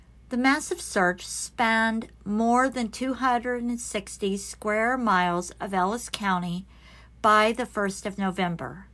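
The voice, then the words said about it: Speaker's own noticeable accent. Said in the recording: “I keep trying to keep my accent down, but it tries to pop up.”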